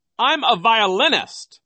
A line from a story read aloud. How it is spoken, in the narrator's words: Nero cried